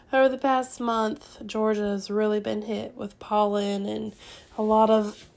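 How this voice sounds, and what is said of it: Weak, recovering voice. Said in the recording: “If you can't tell, my voice is slowly coming back ... struggling with getting that under control with our sinuses”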